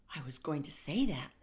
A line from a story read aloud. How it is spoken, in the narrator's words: Alex muttered